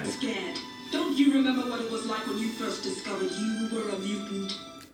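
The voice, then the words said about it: Slight African-tinged accent. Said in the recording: “a good accent, though. It's like quite African-y. ... It's like a tint of African. ... I think that's quite good, actually”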